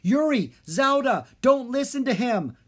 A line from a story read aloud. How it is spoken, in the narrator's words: Drake yelled